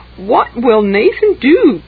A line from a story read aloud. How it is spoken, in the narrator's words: cried Catherine